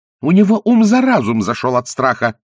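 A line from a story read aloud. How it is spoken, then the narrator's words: Furious contemptuous shout. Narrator (Russian): крикнула она с яростным презрением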